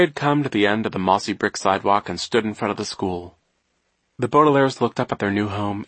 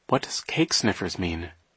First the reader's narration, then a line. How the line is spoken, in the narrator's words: Violet murmured to Klaus